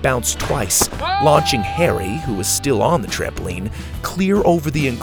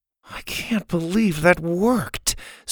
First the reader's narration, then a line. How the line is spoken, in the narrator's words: Suzie mumbled to Sawyer, watching in disbelief